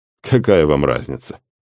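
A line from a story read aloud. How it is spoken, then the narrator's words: Snorting. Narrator (Russian): хмыкнул исполнитель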